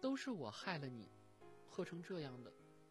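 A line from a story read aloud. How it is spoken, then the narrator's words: Choked, tearful. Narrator (Chinese): 倪小薇 红了眼圈，哽咽道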